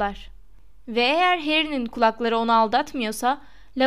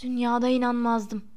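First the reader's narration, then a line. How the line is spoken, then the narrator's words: Muttering. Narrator (Turkish): mırıldanıyordu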